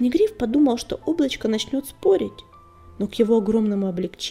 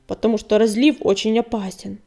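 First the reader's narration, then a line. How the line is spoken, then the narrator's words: Sullen grumble. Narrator (Russian): угрюмо пробурчал облачко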